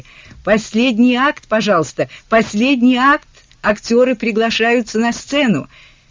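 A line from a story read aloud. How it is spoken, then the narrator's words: Shouted from corridor. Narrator (Russian): в коридоре закричали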